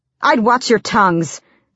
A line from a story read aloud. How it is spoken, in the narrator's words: Selena snapped